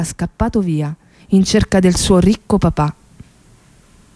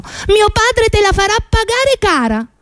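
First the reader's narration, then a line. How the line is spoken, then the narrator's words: Shouted. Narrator (Italian): aveva gridato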